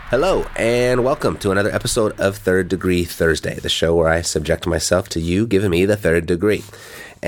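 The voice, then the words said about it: Sick-sounding voice. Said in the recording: “I've been very sick. You can probably tell by my voice right now.”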